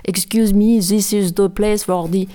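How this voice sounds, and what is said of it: Heavy put-on French accent in English. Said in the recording (French): “en parlant français. Avec un accent énorme.”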